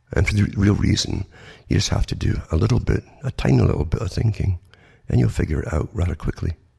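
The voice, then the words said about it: Congested, sniffly voice with sore throat. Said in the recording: “sorry about my voice. ... And I got the cold. And what can you do but struggle on and sniffle a bit and put up with runny noses and the sore throat”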